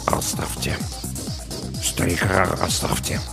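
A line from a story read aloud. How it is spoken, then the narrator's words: Muttering. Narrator (Russian): Саакас пробормотал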